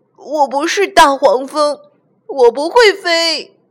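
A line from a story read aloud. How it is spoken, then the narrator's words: Shouting. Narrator (Chinese): 小憨大叫起来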